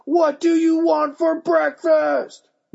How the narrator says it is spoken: Mom yelled

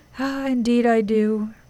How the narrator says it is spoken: replied Father Time with a sigh

